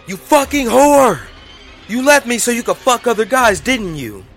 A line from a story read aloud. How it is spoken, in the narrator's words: he yelled